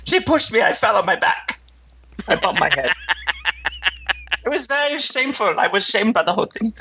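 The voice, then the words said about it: Put-on foreign accent, unclear which. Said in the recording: “I don't know what is this accent I'm doing. It's like a... ... Indian? ... Indian? I don't know. That is not how they talk.”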